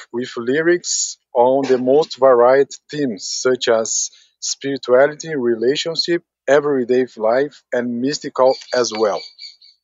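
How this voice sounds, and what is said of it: Brazilian accent in English. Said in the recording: “his English is much better than my Portuguese... I loved his accent”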